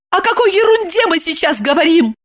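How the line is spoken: Pale shaken shout. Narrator (Russian): Изменяясь в лице и бледнее, закричала она

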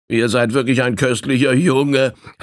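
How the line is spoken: Laughing, unseen speaker. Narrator (German): lachte der noch immer unsichtbare Inquirent

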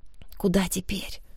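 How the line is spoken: Whisper. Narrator (Russian): шепнула я

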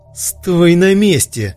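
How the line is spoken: Hysterical shout. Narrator (Russian): истерично закричал Сейд

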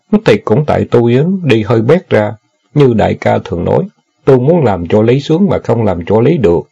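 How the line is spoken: Sighing, tongue-clicking. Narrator (Vietnamese): thở dài, chép miệng nói

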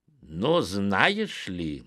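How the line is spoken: Indignant reply. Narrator (Russian): не менее возмущенно отозвался Соломон

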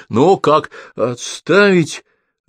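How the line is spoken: Barking. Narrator (Russian): рявкнул Лыков

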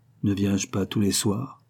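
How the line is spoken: Plain. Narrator (French): répondit Don José

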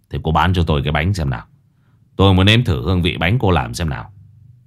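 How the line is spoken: Flat emotionless old man. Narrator (Vietnamese): Lão đáp bằng giọng vô cảm

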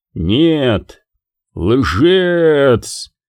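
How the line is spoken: Deafening roar. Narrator (Russian): оглушительно взревел шайтан

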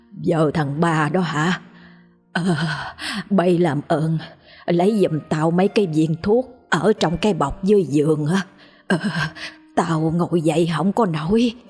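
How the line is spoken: Shaky old woman. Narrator (Vietnamese): Bà cất giọng run run nói

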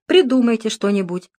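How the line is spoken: Slightly sharp reply. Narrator (Russian): немного резко ответил Дронго

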